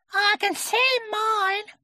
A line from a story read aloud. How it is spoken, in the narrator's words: cried Roo